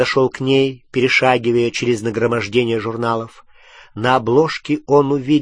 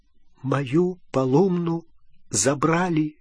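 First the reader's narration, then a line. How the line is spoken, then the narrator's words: Whisper. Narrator (Russian): прошептал он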